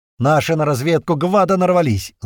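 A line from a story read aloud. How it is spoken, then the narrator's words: Loud yell. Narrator (Russian): заорал на весь салон Дера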